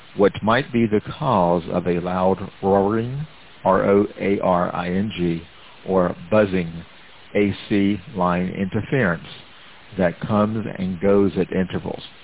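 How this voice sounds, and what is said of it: Speaks with a noticeable accent. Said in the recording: “Let me reread that because of my accent.”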